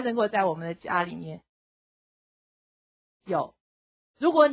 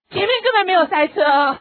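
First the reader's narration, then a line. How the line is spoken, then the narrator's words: Excited mother. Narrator (Chinese): 这个妈妈 有点很激动 她说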